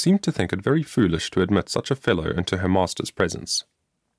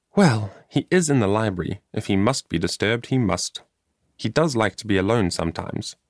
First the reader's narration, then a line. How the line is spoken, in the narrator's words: said the girl in a peevish tone